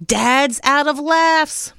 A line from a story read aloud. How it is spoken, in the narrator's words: Mom shouted